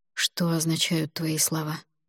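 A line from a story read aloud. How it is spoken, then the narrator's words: Asked quietly. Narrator (Russian): тихо спросил он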